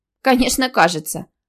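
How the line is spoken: Snort. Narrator (Russian): фыркнула Карина

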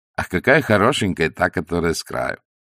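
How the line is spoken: Hearty laughter. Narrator (Russian): от души хохотали

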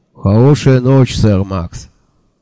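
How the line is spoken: Gloomy statement. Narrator (Russian): мрачно сообщил Анде

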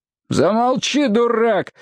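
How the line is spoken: Shouting. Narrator (Russian): закричал Лейб

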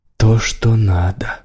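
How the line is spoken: Whisper. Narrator (Russian): прошептала Лайла

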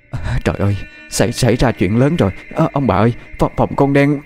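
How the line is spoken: Stammering. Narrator (Vietnamese): Bà lắp bắp nói

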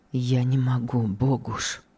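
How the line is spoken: Sad, firm, stiff-lipped. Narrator (Russian): Произнес непослушными губами, печально, но твердо

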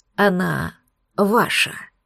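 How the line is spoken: Lord's close whisper. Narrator (Russian): наклонился к моему уху лорд и прошептал

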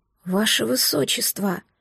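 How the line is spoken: Quiet disbelieving whisper. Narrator (Russian): тихо прошептал он, словно не веря

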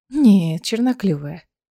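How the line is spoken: Sly purring. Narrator (Russian): ехидно промурлыкала Аэлина

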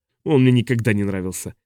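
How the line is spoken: Grumbling. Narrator (Russian): проворчал Хок

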